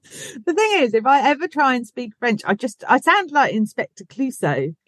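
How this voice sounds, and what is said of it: Berkshire English accent. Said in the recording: “my Berkshire accent”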